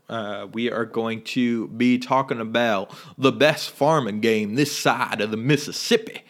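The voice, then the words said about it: Bad put-on Southern accent. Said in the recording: “Sorry for my bad Southern accent.”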